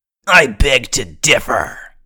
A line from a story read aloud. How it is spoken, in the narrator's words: Burf sneered